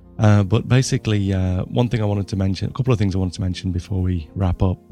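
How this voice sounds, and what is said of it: Husky, strained voice. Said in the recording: “Sorry for the voice. ... I've got a bit of a husky voice today.”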